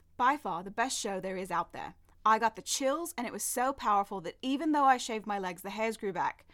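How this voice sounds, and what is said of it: Put-on British accent, indignant energy. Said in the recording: “I need to speak with the manager level of energy ... you're British ... how do I do a British accent?”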